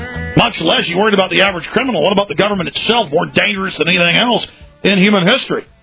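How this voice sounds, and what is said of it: Usual voice. Nothing is said of it.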